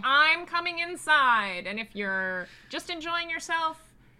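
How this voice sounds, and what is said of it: Old-timey radio announcer voice. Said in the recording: “the old-timey radio voice that you just used”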